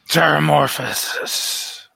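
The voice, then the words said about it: Character voice. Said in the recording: “I say again in my very Barry voice.”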